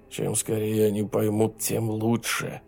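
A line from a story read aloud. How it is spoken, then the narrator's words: Muttering. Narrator (Russian): бормотал он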